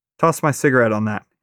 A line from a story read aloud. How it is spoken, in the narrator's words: he says